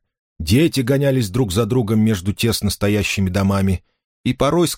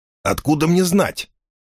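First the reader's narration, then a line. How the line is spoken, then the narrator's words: Angry reply. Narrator (Russian): сердито ответил Финолио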